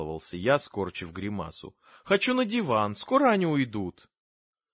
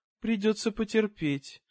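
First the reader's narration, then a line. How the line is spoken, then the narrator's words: Tired mother. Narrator (Russian): устало проговорила мама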